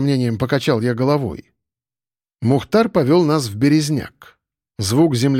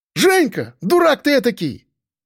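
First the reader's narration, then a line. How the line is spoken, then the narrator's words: Joyful yell. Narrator (Russian): радостно заорал рыжий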